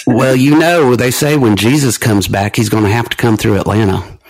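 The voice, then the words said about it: Thick Georgian Southern accent. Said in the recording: “you suddenly had a Georgian accent when you said that ... I can lay it on thick”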